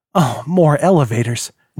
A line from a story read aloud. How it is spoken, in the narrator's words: Jack muttered